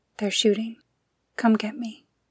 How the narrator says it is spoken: 6 years old, trapped in a car surrounded by her family's corpses, whispering

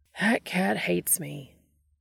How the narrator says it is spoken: Dean said with a sigh

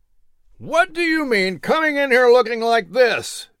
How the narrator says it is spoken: John Randolph roared from the other side of the door

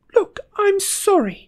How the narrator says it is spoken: cried Hermione

